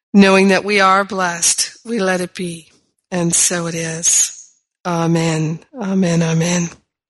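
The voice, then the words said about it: Strained, compromised voice. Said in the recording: “as you can hear, my, my voice is a little compromised”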